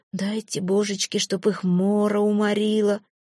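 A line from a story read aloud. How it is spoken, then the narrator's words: Habitual cursing mutter. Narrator (Russian): бормотал по привычке Благожит, будто проклятиями недругу выжимал тяготу из своей души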